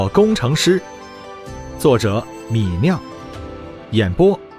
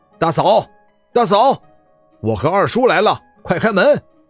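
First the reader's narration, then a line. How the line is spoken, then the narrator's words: Calling out loudly. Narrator (Chinese): 在门口叫喊的人是二叔李道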